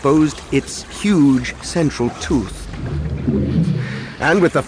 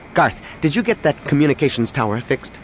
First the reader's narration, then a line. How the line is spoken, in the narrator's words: Danny asked rather sharply